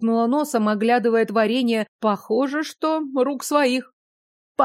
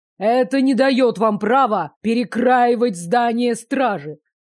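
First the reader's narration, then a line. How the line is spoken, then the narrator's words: Barked. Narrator (Russian): рявкнул мужчина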